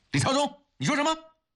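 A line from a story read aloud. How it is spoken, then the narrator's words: Loud shouting. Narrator (Chinese): 扯开嗓子后找到了感觉，瞪着大声地说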